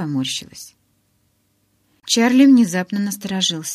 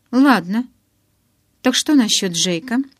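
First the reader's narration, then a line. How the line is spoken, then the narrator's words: Carefree question. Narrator (Russian): Заданный беззаботным тоном вопрос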